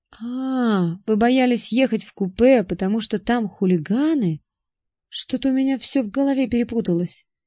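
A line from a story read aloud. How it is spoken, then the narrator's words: Mumbling. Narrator (Russian): промямлил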